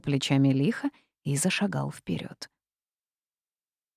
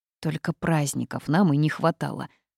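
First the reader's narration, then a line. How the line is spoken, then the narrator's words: Grumbling. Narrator (Russian): проворчала я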